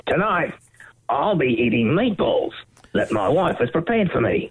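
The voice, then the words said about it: Imitates another person's voice. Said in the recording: “Not too bad of an impression. ... Yeah, I think that was pretty good.”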